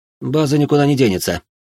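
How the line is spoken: Calm remark. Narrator (Russian): спокойно заметил

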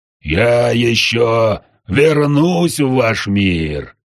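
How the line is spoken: Devil's roar, very close. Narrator (Russian): Совсем рядом проревел дьявол

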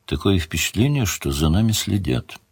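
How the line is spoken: Quiet. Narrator (Russian): Мара сказала тихо

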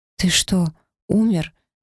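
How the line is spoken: Frightened, slurred whisper. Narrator (Russian): испуганно прошептала я, с трудом шевеля языком

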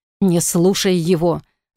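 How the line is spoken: Growl. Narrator (Russian): зарычал Блейн

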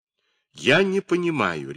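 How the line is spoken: Sharp, abrupt. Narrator (Russian): резко заявил он

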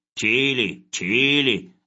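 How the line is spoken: Muttering. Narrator (Russian): забормотал Хлебоводов

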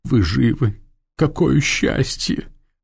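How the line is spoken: Sobbing. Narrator (Russian): всхлипнула она

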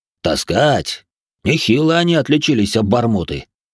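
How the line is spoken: Snorting. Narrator (Russian): хмыкнул Толя Грохот

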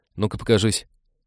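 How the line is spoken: Hurried call. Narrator (Russian): торопливо подозвал Олег

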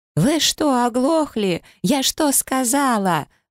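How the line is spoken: Girl screaming, spluttering. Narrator (Russian): продолжала вопить девушка, брызжа слюной

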